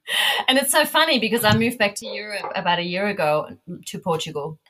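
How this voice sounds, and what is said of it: Australian accent blended with German. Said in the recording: “Hence the ... accent. ... There's a touch ... of that. ... it's a blend ... oh, it's an interesting blend”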